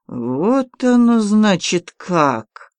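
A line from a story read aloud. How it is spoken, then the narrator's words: Slow hateful mutter. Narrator (Russian): Медленно, с ненавистью процедил он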